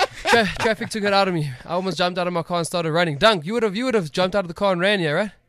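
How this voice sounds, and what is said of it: Out of breath, panting. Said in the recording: “you can hear me. I'm out of breath”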